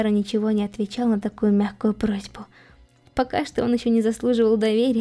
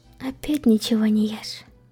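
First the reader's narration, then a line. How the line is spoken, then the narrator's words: Upset sigh. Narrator (Russian): Огорченно вздохнула Эмилия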